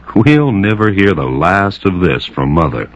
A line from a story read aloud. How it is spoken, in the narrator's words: he laughed and said